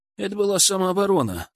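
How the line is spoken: Calm reply. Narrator (Russian): спокойно ответил Илья

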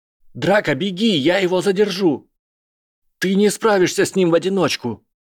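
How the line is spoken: Shout. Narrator (Russian): выкрикнул Драко

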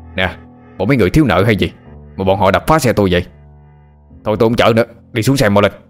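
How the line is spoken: Confused loud shout. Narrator (Vietnamese): Ông tài xế chẳng hiểu mô tê gì, quát lớn hỏi họ

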